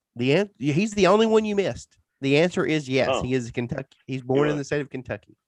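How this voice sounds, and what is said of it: Tennessee Southern accent. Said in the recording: “I'm guessing Tennessee... My accent must carry through... That was the basis of my guess, was your accent.”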